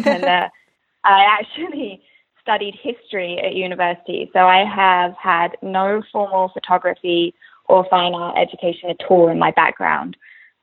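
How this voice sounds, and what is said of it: English accent. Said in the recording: “I went to university in England. It's where I'm from. I don't know if you can tell by the accent.”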